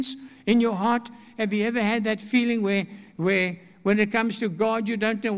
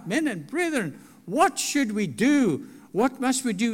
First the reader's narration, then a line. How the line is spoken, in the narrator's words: convicted in their hearts and they cried out